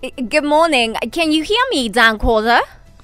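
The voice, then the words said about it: Poor attempt at Australian accent. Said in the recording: “you sound like you've been a terrible accent ... you don't sound Australian at all, mate”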